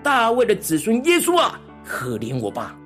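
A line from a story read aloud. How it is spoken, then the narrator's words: Crying out louder. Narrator (Chinese): 他更是越发的喊叫说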